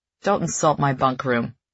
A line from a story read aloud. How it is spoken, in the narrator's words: he mutters